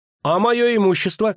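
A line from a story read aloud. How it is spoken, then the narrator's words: Shouting. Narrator (Russian): крикнул Лютик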